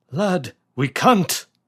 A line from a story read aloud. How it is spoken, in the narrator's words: von Hausmann cried back up to David